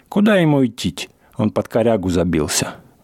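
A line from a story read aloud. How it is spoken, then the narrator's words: Hoarse, muffled deep bass. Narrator (Russian): говорит он охрипшим глухим басом, идущим не из гортани, а из глубины живота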